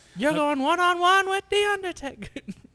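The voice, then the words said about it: Weird little put-on character voice. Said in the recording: “do that weird little voice ... Sounded like that dude in, what was it? I Love You, Man.”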